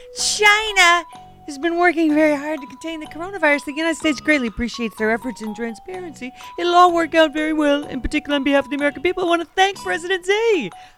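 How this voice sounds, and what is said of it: Donald Trump impression. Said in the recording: “I even did the voice. It's Donald Trump... He sounded more like Elroy Jetson... You could have gone more for Fred Sanford... It was a fantastic Trump impression”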